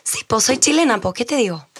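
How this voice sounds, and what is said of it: Weak put-on Chilean accent. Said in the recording (Spanish): “acento chileno ... Es muy pobre ese acento.”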